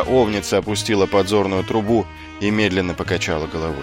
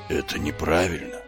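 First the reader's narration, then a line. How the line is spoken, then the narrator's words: Whisper. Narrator (Russian): прошептала она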